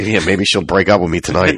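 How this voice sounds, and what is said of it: Dry, fading, hoarse voice. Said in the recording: “I'm exhausted. My voice is going. ... It is going. It's going. ... It's dry.”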